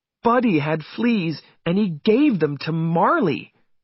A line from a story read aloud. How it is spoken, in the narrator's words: said Jenny angrily